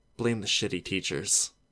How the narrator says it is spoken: whispering

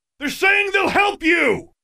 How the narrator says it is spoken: he bellowed

